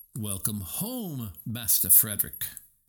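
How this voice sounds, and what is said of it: British accent butler voice. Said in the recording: “he said, in a British accent.”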